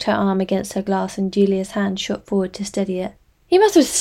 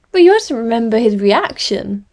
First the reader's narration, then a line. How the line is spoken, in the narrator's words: her mum said, her voice loud with enthusiasm